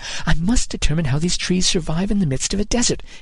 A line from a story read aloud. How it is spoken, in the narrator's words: he muttered